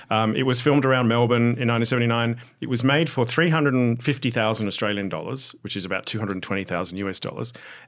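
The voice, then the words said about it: Australian accent. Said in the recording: “I'm Australian, in case you're wondering about the accent.”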